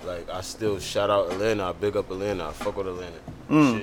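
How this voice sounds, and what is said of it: New Jersey accent. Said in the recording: “you from Jersey? ... You never lost your accent?”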